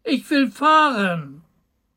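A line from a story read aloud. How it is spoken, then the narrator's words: Small boy calling. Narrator (German): rief der kleine Hebelmann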